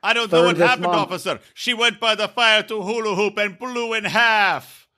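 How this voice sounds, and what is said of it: Put-on Jamaican-style accent. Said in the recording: “It's more of a Jamaican accent, but it doesn't matter.”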